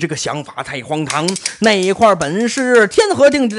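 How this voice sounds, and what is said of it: Usual voice. Nothing is said of it.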